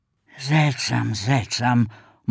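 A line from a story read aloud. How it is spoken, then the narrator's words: Muttering to himself. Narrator (German): murmelte Ricky vor sich hin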